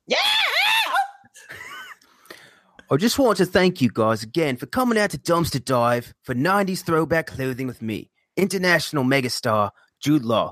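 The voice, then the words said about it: Put-on Australian accent. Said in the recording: “who's Australian for some reason in this accent”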